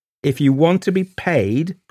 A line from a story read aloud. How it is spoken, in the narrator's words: cried Gerald, forcing himself in